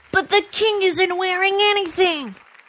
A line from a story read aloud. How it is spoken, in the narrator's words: a kid in the crowd yelled